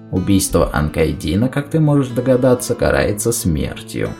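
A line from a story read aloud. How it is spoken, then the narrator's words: Quiet northerner. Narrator (Russian): тихо сказал северянин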